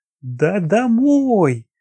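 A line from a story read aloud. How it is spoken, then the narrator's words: Lively loud reply. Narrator (Russian): Оживленно и громко ответил Толпенников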